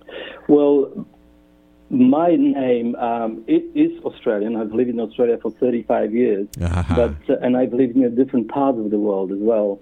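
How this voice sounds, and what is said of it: Non-Australian, Polish-origin accent. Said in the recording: “that accent that I am hearing over the airwaves is not an Australian accent ... I come from Poland”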